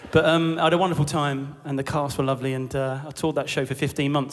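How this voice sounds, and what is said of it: Usual voice. Nothing is said of it.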